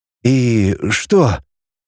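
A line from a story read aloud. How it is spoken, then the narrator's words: Quiet question. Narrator (Russian): тихо спросил Кнуров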